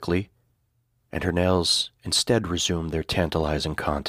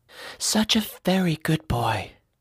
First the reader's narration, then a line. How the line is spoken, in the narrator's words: she breathed into my ear